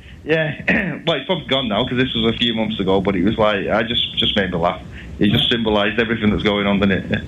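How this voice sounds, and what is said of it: Salford English accent. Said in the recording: “my Salford accent”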